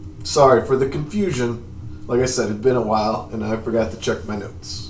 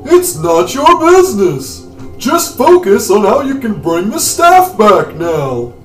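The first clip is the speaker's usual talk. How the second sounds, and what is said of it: Imitates another person's voice. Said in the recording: “I gave her a Jerry Seinfeld voice.”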